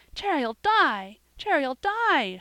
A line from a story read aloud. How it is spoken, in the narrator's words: she cried